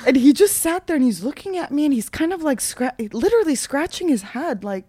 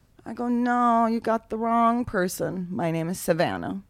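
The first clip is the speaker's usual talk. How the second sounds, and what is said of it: Put-on Southern US accent. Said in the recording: “I said it in a southern accent.”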